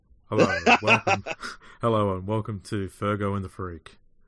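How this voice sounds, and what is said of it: Put-on deeper voice. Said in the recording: “Would it work if I use my deeper voice? ... That sounds a bit worse.”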